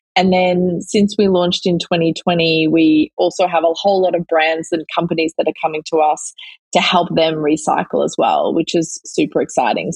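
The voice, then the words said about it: Australian accent. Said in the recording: “this girl's beautiful accent ... my co-founder Alan and I are both Aussie”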